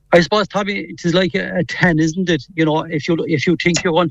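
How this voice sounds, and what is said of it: Strong Cork Irish accent. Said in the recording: “you never lost the Cork accent ... you'd think you'd get some semblance of a Mayo accent, but not a splice of it”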